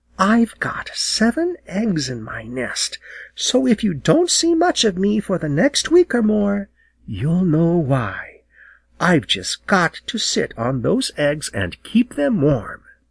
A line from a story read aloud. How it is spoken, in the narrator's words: as she whispered